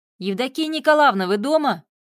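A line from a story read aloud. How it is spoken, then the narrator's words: Loud call. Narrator (Russian): громко позвал Макс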